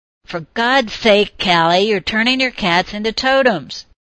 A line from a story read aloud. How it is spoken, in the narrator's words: she could hear Alicia shouting